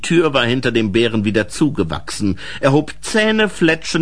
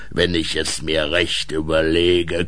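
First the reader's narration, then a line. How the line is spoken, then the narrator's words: Growling bear. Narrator (German): knurrte der Bär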